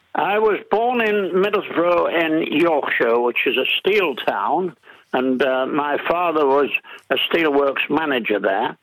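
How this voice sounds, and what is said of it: English accent. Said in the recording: “I detect an English accent there”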